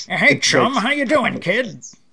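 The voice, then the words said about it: Ragtime-style character voice. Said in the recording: “I've been doing his dialogue in my ragtimey voice”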